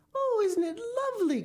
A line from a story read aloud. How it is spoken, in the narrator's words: cried William